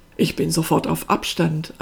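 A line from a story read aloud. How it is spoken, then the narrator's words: Plain. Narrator (German): antwortete Pasquale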